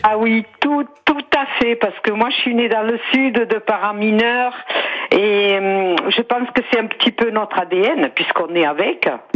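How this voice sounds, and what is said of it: Singsong southern French accent. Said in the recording (French): “Avec un joli accent chantant également. ... on dirait qu'elle chante quand elle parle.”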